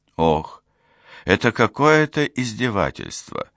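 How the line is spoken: Exhaled. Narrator (Russian): выдохнул Фоллер

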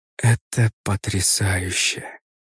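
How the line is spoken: Whispered. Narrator (Russian): прошептала женщина

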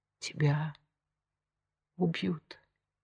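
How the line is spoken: Whisper. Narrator (Russian): прошептала она наконец

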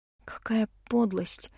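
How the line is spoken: Whisper. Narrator (Russian): прошептала я

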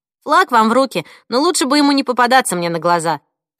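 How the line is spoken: Snorting nurse. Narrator (Russian): фыркнула медсестра

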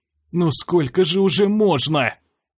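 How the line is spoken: Hoarse wheeze. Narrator (Russian): Прохрипел я

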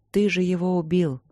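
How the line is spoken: Sad. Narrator (Russian): грустно сказала Ипоталия

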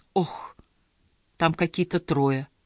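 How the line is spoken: Dejected voice. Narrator (Russian): упавшим голосом сообщила

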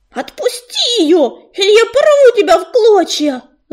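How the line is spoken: Shrill shriek. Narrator (Russian): завизжал

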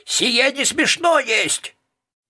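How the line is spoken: Crazed yell. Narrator (Russian): Мал-мало чокнутый Артур заорал

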